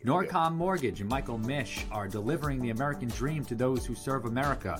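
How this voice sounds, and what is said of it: Rhode Island accent. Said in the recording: “that sweet Rhode Island accent”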